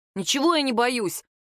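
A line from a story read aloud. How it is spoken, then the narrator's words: Offended, defensive. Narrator (Russian): обиженно вскинулся Владик, оправдался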